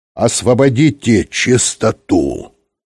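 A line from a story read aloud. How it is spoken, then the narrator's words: Stern. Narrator (Russian): строго сказал Юрковский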